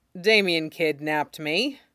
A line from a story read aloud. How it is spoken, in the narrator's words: Jason says flatly